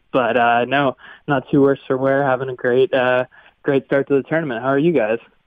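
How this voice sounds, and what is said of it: Voice affected by a cold. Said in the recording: “I have a little cold, so I apologize for my voice. ... even with a chest cold or a head cold or whatever you're battling”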